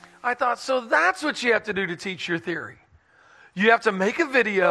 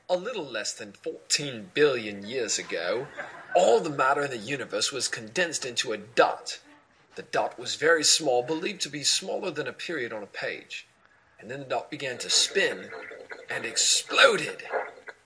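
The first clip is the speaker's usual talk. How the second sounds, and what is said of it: Put-on British accent narration. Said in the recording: “talk with a British accent”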